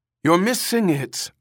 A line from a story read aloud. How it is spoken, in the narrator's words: Ermgard called anxiously